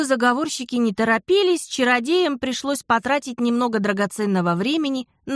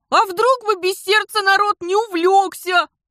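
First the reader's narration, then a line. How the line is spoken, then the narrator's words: Tearful mumble. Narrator (Russian): сквозь слезы пробубнил Дар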